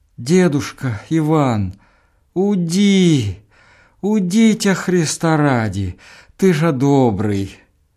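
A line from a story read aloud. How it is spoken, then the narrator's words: Moaning, slow, terribly loud. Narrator (Russian): Женщина простонала коротенько и сказала медленно, страшно громко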